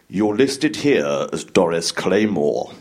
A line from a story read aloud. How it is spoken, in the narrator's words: he said